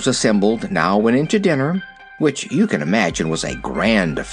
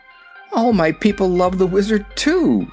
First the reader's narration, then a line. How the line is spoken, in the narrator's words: announced the princess, laughing